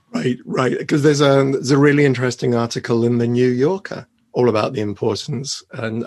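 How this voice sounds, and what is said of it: Hoarse, quiet voice. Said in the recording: “Keep talking a little louder for me because you're very hoarse ... Oh, I am very hoarse.”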